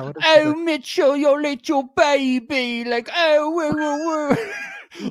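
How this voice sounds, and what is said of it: Cooing baby-talk voice. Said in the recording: “talking baby talk was really funny”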